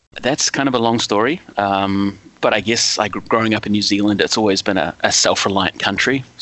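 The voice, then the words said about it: New Zealand accent with Canadian mix. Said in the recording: “why you have the accent you do ... I'm originally a New Zealander. I've been living in Quebec, Canada for over 30 years now. So that's where the accent comes from, although it's a little mixed up with some Canadian and a little bit of Canadian French as well”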